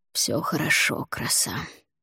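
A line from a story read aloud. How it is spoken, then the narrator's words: Whisper through teeth. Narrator (Russian): сквозь зубы прошептал он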